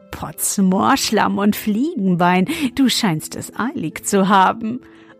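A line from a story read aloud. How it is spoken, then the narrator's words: Laughing until choking. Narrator (German): er lachte, bis er sich verschluckte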